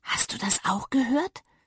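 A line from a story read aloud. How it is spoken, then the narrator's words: Whisper. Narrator (German): flüsterte Papa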